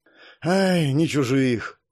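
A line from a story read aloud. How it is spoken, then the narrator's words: Heavy sigh. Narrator (Russian): тяжело вздохнул Сориус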